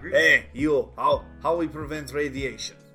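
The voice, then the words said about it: Put-on foreign accent. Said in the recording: “Why are you talking something. In that accent? Who are you, comrade question?”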